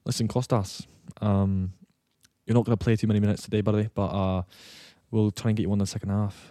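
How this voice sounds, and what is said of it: Scottish accent impression. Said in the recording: “Can you do Scottish?... like a Gordo accent... That's not awful.... He's not like fully Scottish.”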